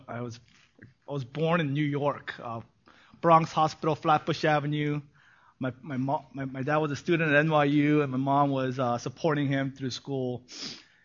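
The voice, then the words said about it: Gangster-movie style New York accent. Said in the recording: “that's why you have that accent ... Too many bad movies. That's the reason. Too many gangster movies.”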